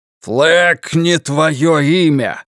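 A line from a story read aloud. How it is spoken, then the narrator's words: Roaring. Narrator (Russian): проревел Ральф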